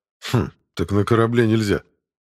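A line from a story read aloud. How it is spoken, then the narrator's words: Grunting snort. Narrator (Russian): хмыкнул тень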